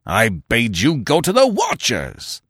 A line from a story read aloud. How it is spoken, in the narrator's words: the chief bellowed